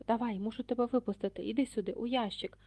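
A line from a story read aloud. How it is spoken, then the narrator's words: Hoarse whisper. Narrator (Ukrainian): хтось хрипко зашепотів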